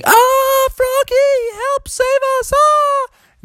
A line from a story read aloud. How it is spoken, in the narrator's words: Jack and Annie getting carried off into the distance, screaming